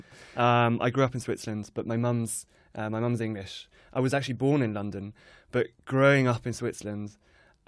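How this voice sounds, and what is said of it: English accent, not region-specific. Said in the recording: “I kind of developed an English accent, but not really from a specific location”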